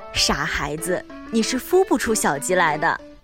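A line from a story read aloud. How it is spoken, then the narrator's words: Exasperated yet amused. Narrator (Chinese): 爱迪生的妈妈又好气又好笑，说道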